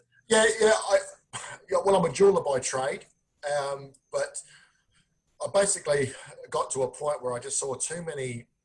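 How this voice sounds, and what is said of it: Australian accent. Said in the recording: “all the way from Adelaide, Australia ... we get to be delighted by your accent ... we over here think you have the accent ... we're going to be entertained just by the way you sound”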